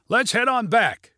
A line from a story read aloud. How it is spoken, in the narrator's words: shouted Junie